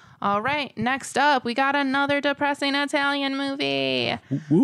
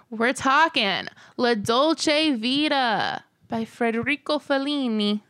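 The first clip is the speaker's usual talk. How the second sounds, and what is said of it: Put-on Italian accent. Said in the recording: “See, that's my Italian... Mm, that was good... you do such good impressions... It's not racist for me to do an Italian accent.”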